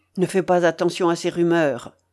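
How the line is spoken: Cold retort. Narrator (French): répliqua froidement le Templier

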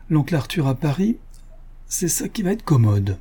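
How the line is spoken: Laughing. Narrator (French): Paul dit en riant

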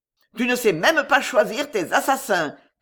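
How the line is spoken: Shout. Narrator (French): cria Jehan

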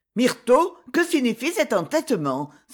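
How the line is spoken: Displeased exclamation. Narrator (French): s'écria la comtesse d'un ton mécontent

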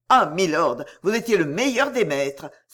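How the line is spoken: Exclaimed with conviction. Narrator (French): s'écria Miles avec conviction

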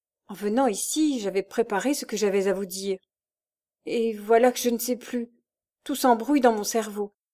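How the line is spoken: Stammering. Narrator (French): bégaya-t-elle

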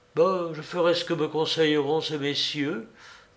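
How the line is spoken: Young woman's murmur. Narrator (French): murmura la jeune fille

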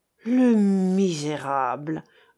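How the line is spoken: Barely restrained growl. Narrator (French): grondait Jean qui avait peine à se contenir

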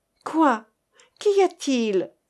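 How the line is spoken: Fearful trembling voice. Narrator (French): demanda-t-elle d'une voix où tremblaient ses craintes

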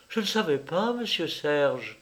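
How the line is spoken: Tearful pleading voice. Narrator (French): répéta-t-elle d'une voix suppliante, pleine de larmes

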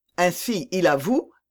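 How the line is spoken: Exclaiming. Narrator (French): s'écria Raoul

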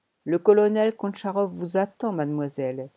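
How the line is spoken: Flat toneless voice. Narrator (French): dit-il d'une voix sans timbre

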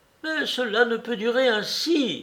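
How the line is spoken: Sister exclaiming. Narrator (French): s'écrie la sœur

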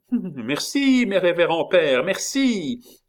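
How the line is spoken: Shrill cry. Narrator (French): cria la voix stridente de Henri III

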